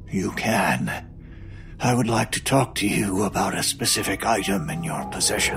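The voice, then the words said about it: Breathless whisper. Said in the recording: “His voice was a breathless whisper.”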